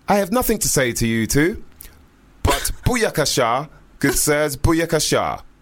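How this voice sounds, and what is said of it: Strong posh English accent. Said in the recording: “in a very strong, posh English accent”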